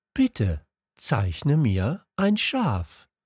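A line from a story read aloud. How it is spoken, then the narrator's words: Slow, serious. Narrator (German): wiederholte er langsam, als wäre es eine sehr ernste Sache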